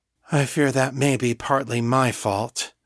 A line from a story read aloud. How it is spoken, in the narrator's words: Miriam sighed